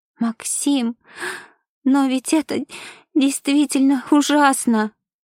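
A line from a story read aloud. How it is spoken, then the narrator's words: Sobbing. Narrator (Russian): всхлипнула Ева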